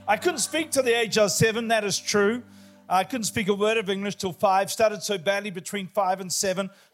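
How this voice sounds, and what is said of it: New Zealand accent. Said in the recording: “a lot of people don't even know where New Zealand is. We do speak English, but if you can't understand me, it's the accent.”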